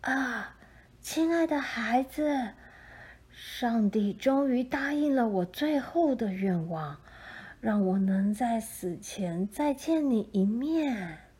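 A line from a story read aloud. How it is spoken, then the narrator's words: Joyful cry, old woman. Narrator (Chinese): 老妇人 忽然欢喜地叫出声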